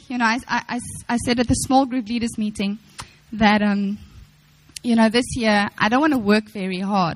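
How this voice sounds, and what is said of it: Voice sounds weak and unwell. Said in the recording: “I'm so weak, I feel terrible, I sound awful.”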